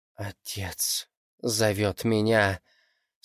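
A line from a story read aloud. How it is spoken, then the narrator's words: Demon through gritted teeth. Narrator (Russian): сквозь зубы произнес демон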